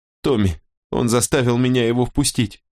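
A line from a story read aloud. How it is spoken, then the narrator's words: Whimpering girl. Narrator (Russian): захныкала девица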